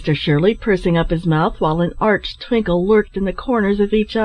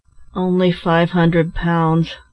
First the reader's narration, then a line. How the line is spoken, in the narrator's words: replied Ned with a sigh